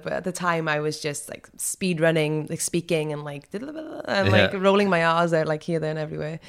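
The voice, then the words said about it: Mild, softened Welsh accent. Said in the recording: “are you Welsh? ... right now, I think my accent is a bit more, like, timid and a bit less, a bit more articulate”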